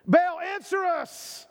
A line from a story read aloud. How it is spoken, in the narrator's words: They shouted